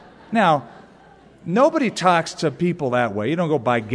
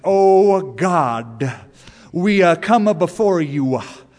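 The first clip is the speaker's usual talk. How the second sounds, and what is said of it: Preacher's drawn-out prayer voice. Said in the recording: “some people have a prayer voice... Preachers do this... they suddenly get a southern accent with it... accompanied with kind of a lingering at the end of the consonant”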